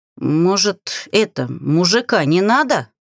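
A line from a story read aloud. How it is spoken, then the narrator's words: Stuttering, hoarse. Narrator (Russian): Заикаясь, прохрипел Корс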